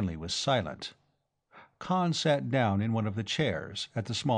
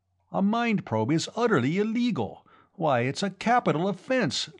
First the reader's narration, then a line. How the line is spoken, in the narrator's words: Ledoux exclaimed